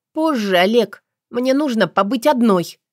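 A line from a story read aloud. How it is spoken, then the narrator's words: Sharp reply. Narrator (Russian): резко ответила я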